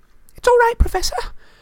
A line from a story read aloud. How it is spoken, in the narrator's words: Hermione gasped